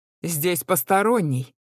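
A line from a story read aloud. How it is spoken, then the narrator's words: Thunderous booming voice. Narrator (Russian): прогремело, как гром посреди ясного неба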